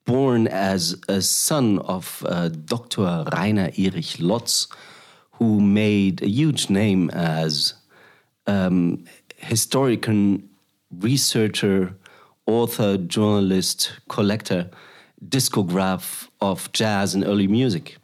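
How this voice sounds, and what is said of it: German accent. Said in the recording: “very German, which you can hear at my accent”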